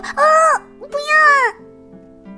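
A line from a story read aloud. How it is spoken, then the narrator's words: Cry. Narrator (Chinese): 罗拉的叫声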